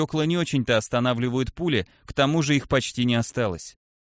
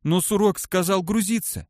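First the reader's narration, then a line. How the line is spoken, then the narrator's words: Trembling objection. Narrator (Russian): все тем же дрожащим голосом возразил Юпсик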